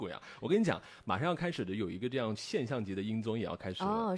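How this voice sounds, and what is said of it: Usual voice. Nothing is said of it.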